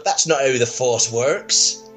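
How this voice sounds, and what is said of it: Put-on West Country accent. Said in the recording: “it's not very good on our West Country accent for, uh, test.”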